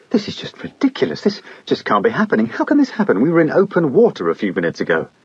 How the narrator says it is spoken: a man and a woman exclaiming incredulously

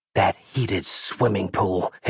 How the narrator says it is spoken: hissed Valesco inwardly

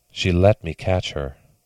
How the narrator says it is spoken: he whispered

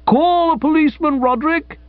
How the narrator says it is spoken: cried

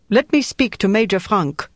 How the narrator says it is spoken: A voice with a German accent said

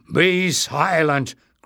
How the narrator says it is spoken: growled Barda

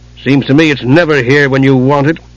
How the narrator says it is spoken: Caramon grumbled

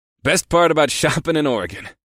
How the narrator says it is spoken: I chuckled

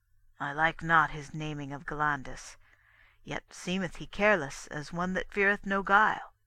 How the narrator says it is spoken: Corsus spake softly to his sons

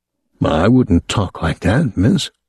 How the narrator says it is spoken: Jordache said, his voice still calm

